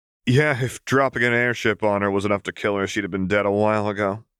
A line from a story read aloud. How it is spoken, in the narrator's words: Vi said with a weak laugh